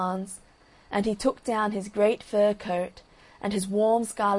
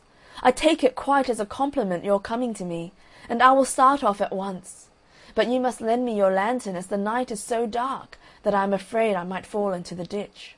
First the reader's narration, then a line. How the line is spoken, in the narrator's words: cried little Hans